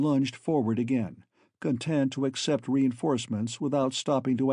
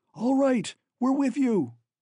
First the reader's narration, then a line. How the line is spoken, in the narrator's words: Bjornsen shouted